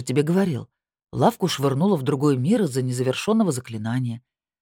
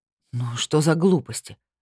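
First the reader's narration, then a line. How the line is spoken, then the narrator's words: Sigh. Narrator (Russian): вздохнул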